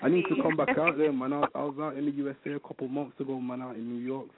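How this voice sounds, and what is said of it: UK accent. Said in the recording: “UK in the building... I love your accent... Very sexy.”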